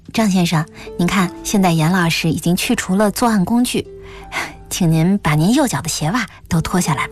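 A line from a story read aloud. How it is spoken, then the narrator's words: Soft-spoken. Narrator (Chinese): 戚艳荣轻声说道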